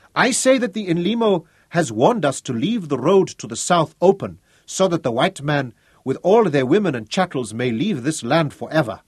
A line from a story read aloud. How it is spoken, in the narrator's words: he shouted